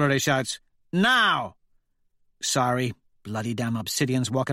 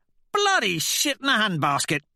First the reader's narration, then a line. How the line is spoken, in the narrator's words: Severo yelps